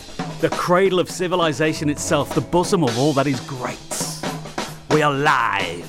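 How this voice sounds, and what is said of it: English accent. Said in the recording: “Even though this accent is English”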